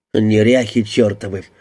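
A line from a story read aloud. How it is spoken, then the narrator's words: Muttering. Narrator (Russian): пробормотал он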